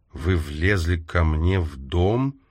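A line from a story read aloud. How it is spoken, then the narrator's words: Slow questioning. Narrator (Russian): медленно переспросила она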